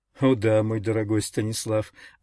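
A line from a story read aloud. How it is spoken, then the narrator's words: Happy, laughing. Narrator (Russian): ответил, счастливо смеясь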